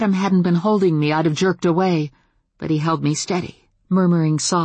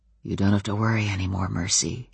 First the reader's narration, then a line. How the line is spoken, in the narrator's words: Adam murmured, his head bent so that he whispered it into my ears